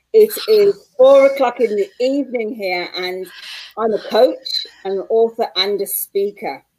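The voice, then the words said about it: Manchester English accent. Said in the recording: “as you can tell by my accent, I'm from Manchester, England.”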